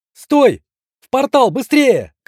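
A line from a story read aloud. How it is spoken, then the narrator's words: Strained desperate shout. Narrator (Russian): крикнул я, из последних сил удерживая все сужающееся окно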